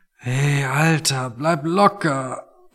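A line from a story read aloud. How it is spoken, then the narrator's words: Quiet, sensitive to noise. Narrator (German): meinte Tony und sprach leise, weil jedes Geräusch einfach noch zu viel für ihn war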